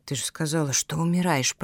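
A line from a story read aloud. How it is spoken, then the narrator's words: Whispered. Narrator (Russian): прошептал Зябкин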